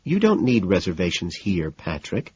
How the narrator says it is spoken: she says soothingly

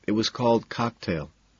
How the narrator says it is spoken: he says softly

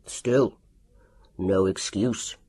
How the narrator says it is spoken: grunted Dr

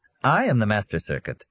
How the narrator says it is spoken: the middle-aged woman said, smiling cheerfully

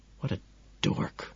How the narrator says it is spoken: Courtney whispers sadly to herself

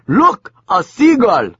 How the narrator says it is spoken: the yogi screamed

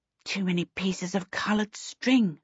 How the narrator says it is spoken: Charmaine muttered to Waif

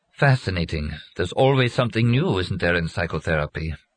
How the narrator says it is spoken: Wearily, Steiner said

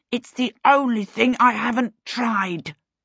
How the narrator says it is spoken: Peter snarled at her

